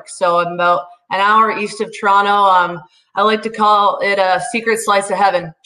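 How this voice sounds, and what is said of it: Slight Canadian accent. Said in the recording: “I can hear a little bit. You shed that Canadian accent a little bit, but it's still there.”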